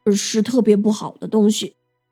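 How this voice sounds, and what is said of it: Quiet, hushed voice. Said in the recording (Chinese): “小声的说”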